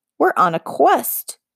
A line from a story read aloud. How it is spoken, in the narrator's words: Fable squeaked